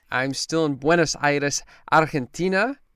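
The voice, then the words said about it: Argentine Spanish accent on place names. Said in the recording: “Showing off his little accent.”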